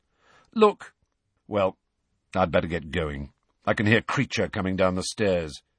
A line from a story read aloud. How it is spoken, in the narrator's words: said Sirius